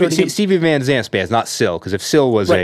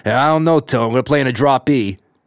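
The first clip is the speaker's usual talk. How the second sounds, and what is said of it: Imitates another person's voice, badly. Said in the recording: “Sorry for that impersonation ... the impersonations are god awful, but made with love”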